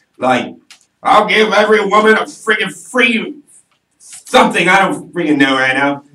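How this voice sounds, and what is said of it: Poor imitation of another person's voice. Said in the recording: “That's the worst impression of him I've ever heard. ... That's not even close.”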